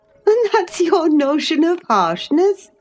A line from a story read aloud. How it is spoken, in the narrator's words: said Catherine, laughing